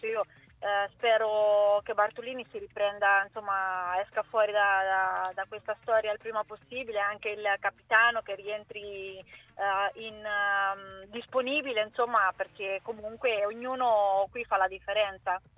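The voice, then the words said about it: Italian regional Anconetan accent. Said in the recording (Italian): “hai un accento meraviglioso ... io sono anconetana e me ne vanto”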